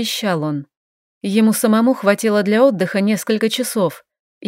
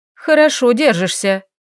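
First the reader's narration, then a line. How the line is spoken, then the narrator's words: Grumbling. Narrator (Russian): пробурчала она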